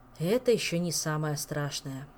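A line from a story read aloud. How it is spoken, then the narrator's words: Sighing. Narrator (Russian): вздохнул потенциальный муж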